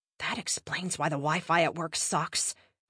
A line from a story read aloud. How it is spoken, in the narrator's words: Kristen mumbled quietly